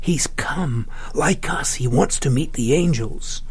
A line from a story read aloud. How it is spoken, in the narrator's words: Laurita whispered